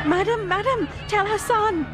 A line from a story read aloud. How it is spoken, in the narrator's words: Shanta yells